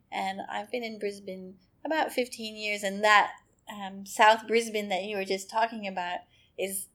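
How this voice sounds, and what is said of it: Speaks with a foreign accent. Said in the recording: “I have an accent, or mm-hmm. you all have accents and I don't. You know, this isn't my original country.”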